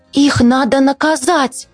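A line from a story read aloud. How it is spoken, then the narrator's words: Mother's exclamation. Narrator (Russian): воскликнула мама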